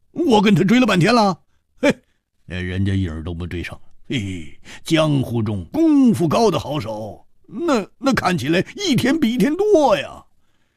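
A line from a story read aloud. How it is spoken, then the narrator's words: Wry, bitter laugh. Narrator (Chinese): 胡铁花苦笑着说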